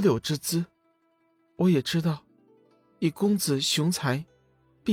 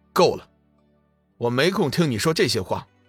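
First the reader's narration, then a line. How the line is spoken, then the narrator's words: Cold voice. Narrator (Chinese): 龙宇冷声道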